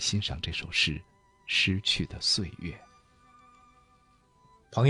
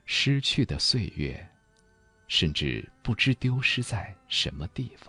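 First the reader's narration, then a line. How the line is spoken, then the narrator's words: Lamenting. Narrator (Chinese): 诗人艾青有过这样的感叹，他说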